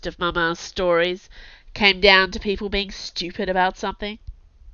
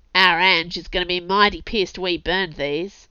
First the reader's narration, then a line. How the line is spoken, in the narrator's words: one of the lads grunted